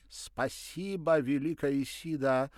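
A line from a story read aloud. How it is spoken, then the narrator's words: Grateful exclamation. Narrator (Russian): воскликнул Николя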